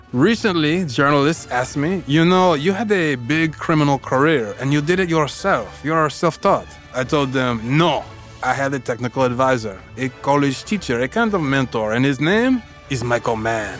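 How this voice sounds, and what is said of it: Put-on French accent. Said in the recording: “Forgive my French accent.”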